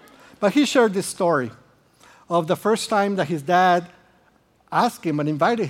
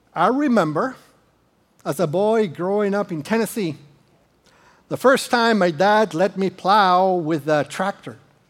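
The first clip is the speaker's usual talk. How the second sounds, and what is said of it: Slight put-on Tennessee accent. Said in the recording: “his accent changes a little... my accent will change a little too... growing up in Tennessee”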